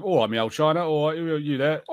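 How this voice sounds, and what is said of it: Put-on Cockney accent. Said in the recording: “the Cockney accent is specifically London. ... southern, but it's like very working class”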